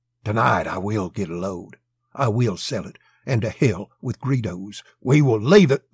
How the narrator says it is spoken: he whispered abruptly

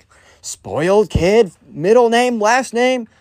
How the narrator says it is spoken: the Kyle's mom, or the spoiled kid's mom, immediately starts yelling

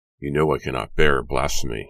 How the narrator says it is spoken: he interrupted in a low, steady voice

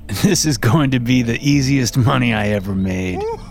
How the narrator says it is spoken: Bill said with a laugh

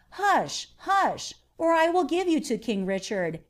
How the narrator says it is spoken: when the children of Turks or Saracens cried out, their mother said to them

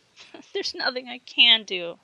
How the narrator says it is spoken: sobbed Patricia

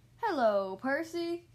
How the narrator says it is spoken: boomed

